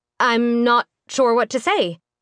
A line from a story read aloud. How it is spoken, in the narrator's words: Nika stammered by way of thanks